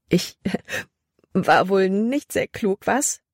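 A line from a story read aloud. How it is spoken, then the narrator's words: Laughing loudly. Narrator (German): Als wäre es das Lustigste, was sie je getan hatte, lachte sie laut heraus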